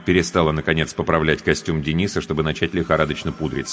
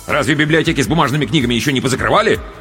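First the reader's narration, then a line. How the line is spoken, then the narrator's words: Angry father interjecting. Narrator (Russian): сердито вмешался отец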